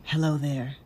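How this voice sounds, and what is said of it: Sultry, seductive voice. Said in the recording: “Put on your sexy voice.”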